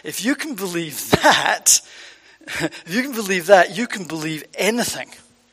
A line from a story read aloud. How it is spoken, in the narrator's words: She laughed and she said